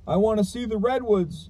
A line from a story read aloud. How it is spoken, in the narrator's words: I had cried to them